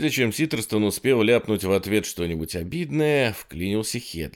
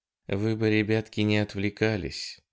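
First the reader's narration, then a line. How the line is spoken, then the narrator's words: Utterly indifferent tone. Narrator (Russian): ответил Лин еще более равнодушным тоном, если такое вообще было возможно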